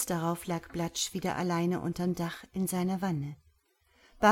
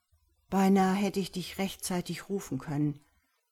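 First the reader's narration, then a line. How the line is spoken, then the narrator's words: Plain. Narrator (German): sagte Blatsch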